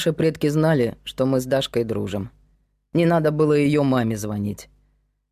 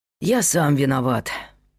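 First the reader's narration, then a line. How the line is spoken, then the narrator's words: Sighed. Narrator (Russian): вздохнул Пётр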